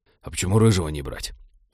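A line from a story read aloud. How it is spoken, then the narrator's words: Whispered question. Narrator (Russian): шепотом спросил Тед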